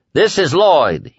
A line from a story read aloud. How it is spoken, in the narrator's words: he bellowed into the phone